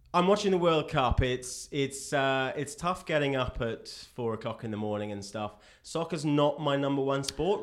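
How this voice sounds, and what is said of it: English accent. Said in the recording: “is English ... I am English ... listen to my accent”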